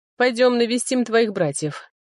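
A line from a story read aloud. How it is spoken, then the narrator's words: Heavy sigh. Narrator (Russian): сказал я, тяжело вздохнув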